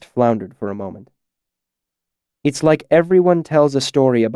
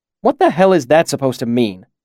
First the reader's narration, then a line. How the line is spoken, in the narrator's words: Chronicler snapped